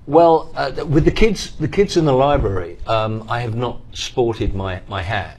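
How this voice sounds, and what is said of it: British accent. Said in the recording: “that guy's got a British accent.”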